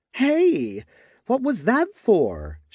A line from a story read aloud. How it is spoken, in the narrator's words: she asked, indignantly